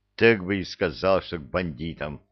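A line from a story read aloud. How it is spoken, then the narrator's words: Grumbling. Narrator (Russian): буркнул Кевин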